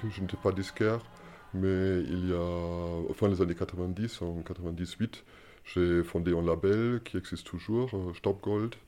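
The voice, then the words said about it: German accent speaking French. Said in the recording (French): “à ton accent, on devine que tu n'es pas ... je, suis, allemand.”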